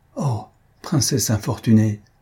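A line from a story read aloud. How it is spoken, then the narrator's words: Masked attendant exclaiming. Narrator (French): s'écria la suivante masquée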